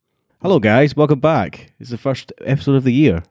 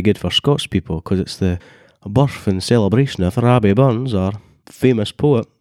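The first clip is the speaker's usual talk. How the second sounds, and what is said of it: Exaggerated stereotypical Fife Scottish accent. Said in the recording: “doing a very, very stereotypical Fife Scottish accent”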